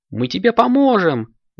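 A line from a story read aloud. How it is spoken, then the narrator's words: Exclamation. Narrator (Russian): воскликнул райдер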